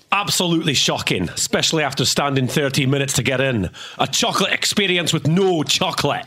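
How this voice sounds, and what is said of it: Put-on Scottish accent. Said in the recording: “read your quote in your best/worst Scottish accent”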